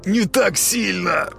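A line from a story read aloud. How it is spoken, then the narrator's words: Hoarse rasp. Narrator (Russian): прохрипел тот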